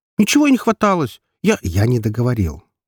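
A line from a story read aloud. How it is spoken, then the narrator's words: Sharper tone. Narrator (Russian): уже более резко сказал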